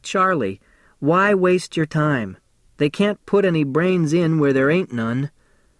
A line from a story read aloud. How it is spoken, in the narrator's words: He laughed like he always done when I say something funny, and he says to me